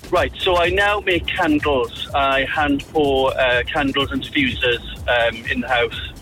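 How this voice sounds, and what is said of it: South Welsh accent, sounds posh. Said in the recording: “you've got a lovely, lovely accent ... I'm from South Wales, Port Talbot ... You have a lovely accent and you sound very posh”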